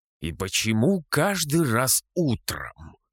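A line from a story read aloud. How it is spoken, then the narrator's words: Grumbling. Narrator (Russian): проворчал я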